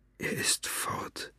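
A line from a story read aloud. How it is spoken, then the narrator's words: Whisper. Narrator (German): flüsterte er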